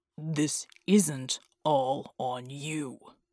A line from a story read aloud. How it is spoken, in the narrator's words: Bulwark growled